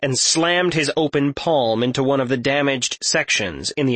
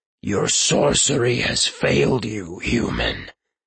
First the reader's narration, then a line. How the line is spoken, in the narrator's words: it spoke in a deep, reverberating tone